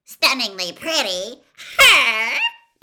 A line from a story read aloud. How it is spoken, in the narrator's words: Pansy Parkington had shrieked